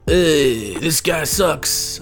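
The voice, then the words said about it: Put-on Greek accent. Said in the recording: “That's my Greek accent, by the way. It's very racist.”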